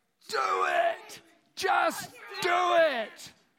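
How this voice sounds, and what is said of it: Imitates another person's voice, shouted. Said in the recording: “can do an impression of him ... Really loud. Loud as you can.”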